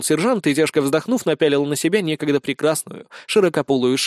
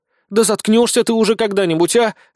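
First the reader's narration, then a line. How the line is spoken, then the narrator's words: Snapping retort. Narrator (Russian): огрызнулась Безос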